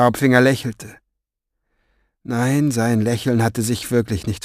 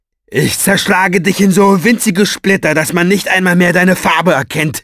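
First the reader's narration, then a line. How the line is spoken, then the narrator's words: Shouted after someone. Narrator (German): schrie ihm hinterher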